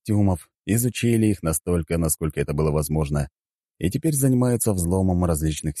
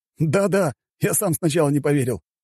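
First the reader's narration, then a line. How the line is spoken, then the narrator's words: Laughing. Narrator (Russian): рассмеялся ученый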